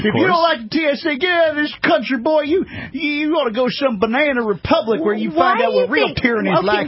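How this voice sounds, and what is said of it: Put-on Southern hick accent. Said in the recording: “why do you put on that accent as though, you know, Southerners or hickish kind of people don't want freedom? ... It's just an accent ... I'm using character voices”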